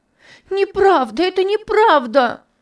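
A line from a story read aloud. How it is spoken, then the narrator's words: Screaming, sobbing loudly. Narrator (Russian): кричала Топси, громко рыдая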